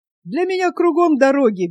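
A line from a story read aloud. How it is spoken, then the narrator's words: Carefree laugh. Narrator (Russian): беззаботно засмеялся Федот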